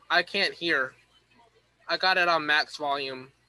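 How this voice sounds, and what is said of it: Talking very loudly. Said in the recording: “I'm talking so loud.”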